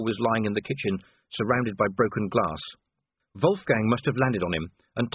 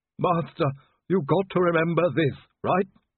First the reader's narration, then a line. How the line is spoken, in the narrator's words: Igor groaned